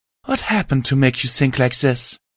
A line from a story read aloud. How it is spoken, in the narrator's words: Generosity asked, her voice filled with concern